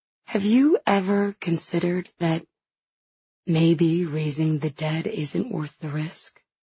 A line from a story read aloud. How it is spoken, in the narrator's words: She asks quietly